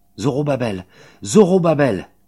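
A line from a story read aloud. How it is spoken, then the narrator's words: Imperious shout. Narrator (French): crie la voix impérieuse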